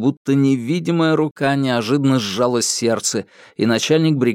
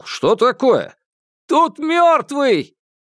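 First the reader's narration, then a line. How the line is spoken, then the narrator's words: Shout. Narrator (Russian): крикнул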